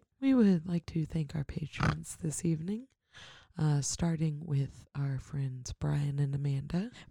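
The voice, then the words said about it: Sleepy, drowsy slow voice. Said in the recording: “The sleepy time voice? ... You're going to put me to sleep.”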